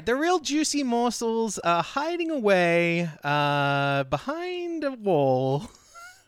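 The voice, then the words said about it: Silly funny put-on voice. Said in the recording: “I'm just saying it in a funny voice.”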